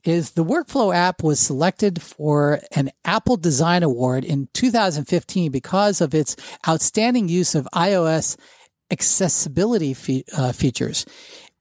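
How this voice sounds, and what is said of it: Stuttering while reading aloud. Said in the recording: “I'm stuttering more than normal”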